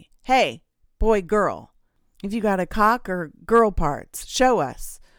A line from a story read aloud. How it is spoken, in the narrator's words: shouting